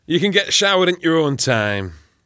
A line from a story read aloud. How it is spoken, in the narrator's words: Ken grunted